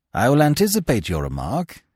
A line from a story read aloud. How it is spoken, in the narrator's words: he said, smiling dryly